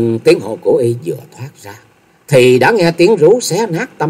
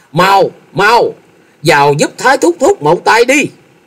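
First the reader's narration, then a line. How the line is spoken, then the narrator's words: Terrified loud shout. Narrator (Vietnamese): Thôi Dân thất kinh hét lớn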